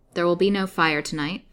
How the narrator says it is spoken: said Haiti curtly

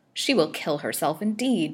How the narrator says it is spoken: muttered Pratt

